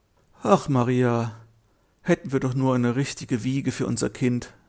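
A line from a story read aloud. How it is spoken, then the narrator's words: Husband sighing. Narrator (German): seufzte ihr Mann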